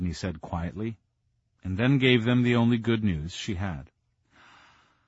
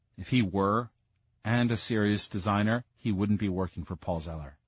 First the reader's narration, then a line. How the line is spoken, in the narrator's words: Sabrina said coldly